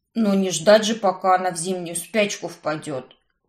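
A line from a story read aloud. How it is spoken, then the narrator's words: Snorting. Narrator (Russian): фыркнул жених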